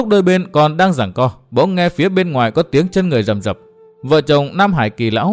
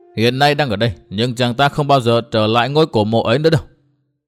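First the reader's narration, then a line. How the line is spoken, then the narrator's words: Stern voice. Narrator (Vietnamese): Tốc Đào nghiêm giọng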